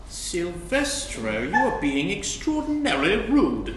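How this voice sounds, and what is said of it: Perfect British accent. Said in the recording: “in a perfect British accent.”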